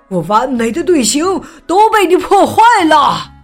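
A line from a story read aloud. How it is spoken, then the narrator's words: Shouting. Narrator (Chinese): 乐队指挥喊道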